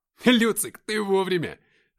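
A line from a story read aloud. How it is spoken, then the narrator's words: Loud laughter over battle noise. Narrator (Russian): захохотал я, пытаясь перекричать шум боя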